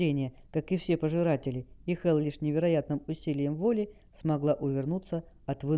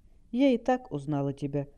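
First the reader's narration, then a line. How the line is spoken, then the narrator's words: Sad, smiling. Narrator (Russian): грустно улыбнулась дочь правителя Дейрона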